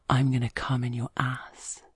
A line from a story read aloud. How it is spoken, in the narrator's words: he whispers in my ear